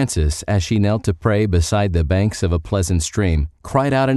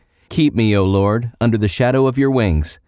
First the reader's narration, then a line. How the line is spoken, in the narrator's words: Francis of Assisi exclaimed